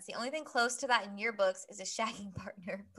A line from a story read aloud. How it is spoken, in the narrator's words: Blaze said with a laugh